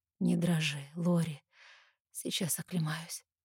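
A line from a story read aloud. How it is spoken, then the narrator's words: Strained, choked voice. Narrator (Russian): произносит сдавленным голосом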